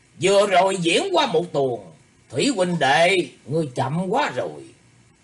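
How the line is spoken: Loud arrogant laughter. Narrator (Vietnamese): Phương Thiếu Phủ cười lớn, vẻ ngạo mạn

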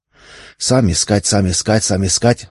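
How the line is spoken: Muttering repeated foreign words. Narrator (Russian): бормотал таможенник, повторяя финские слова

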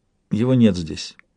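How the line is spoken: Quiet reply. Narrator (Russian): тихо ответил Уинтроу

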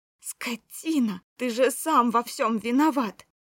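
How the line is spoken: Furious shrieking. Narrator (Russian): Я визжала

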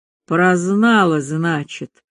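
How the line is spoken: Calm. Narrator (Russian): Перлова спокойно произнесла

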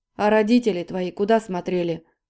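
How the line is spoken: Sudden growl. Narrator (Russian): вдруг рыкнул Сергей

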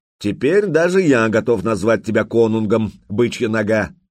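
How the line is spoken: Loud guffaw. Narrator (Russian): И громко захохотал

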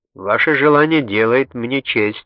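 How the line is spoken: Plain. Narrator (Russian): ответил Мангано

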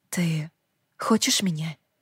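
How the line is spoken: Whispered. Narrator (Russian): прошептала я

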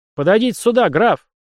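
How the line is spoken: Young officer's sharp shout. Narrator (Russian): прикрикнул зеленый подпоручик

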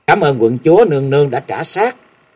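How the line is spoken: Smiling speech. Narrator (Vietnamese): Dương Tiêu mỉm cười nói

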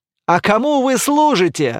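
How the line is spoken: Laughing. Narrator (Russian): рассмеялся Эр

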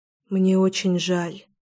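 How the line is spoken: Whisper. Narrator (Russian): прошептала я

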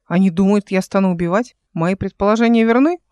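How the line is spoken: Snorting. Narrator (Russian): фыркнула она

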